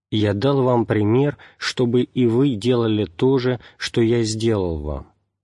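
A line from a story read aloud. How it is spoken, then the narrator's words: Plain. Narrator (Russian): сказал он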